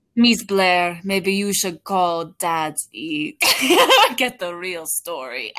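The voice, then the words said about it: Attempted Polish accent. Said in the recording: “I don't know how to do a Polish accent.”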